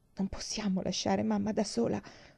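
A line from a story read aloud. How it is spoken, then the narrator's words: Whispered. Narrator (Italian): sussurrò Mary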